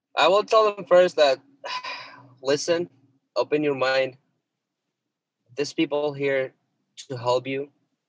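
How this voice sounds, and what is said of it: Noticeable non-native accent in English. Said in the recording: “my accent is still showing, but I'm speaking English”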